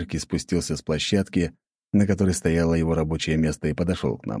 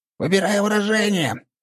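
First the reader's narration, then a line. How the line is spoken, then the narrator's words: Displeased squeak. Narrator (Russian): пропищал недовольный Валера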